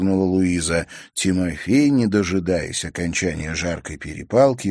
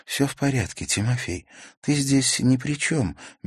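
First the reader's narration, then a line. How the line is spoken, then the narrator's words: Soft. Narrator (Russian): мягко ответила Наташа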